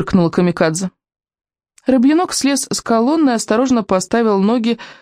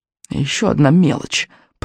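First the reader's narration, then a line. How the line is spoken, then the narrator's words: Grumbling. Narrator (Russian): проворчал он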